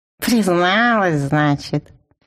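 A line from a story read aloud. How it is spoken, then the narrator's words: Dejected, drawn-out. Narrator (Russian): упавшим голосом протянул он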